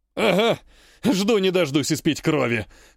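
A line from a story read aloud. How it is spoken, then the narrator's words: Short guffaw. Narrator (Russian): хохотнул третий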